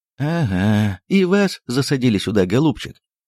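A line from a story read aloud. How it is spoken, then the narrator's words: Hoarse, sleepy voice. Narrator (Russian): проговорил он сиплым спросонным голосом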